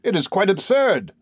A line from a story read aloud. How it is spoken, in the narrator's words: I cried